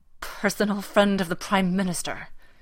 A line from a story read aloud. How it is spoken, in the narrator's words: he snarls